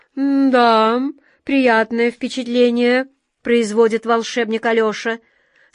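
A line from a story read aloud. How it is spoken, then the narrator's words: Plain. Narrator (Russian): сказал капитан Тинтиныч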